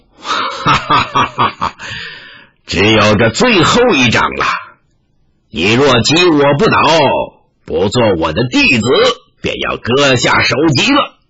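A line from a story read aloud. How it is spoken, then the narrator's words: Laughing loudly. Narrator (Chinese): 天龙上人大笑道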